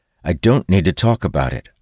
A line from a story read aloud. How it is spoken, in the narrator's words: I reply sharply